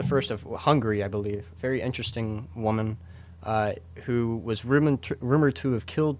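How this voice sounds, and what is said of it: Stuttering, halting speech. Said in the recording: “I'm stuttering so much today”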